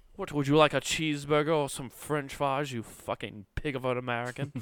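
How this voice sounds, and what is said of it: Put-on British cockney accent. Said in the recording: “I did a British accent that was cockney ... It sounds just like the butler to Batman in those movies.”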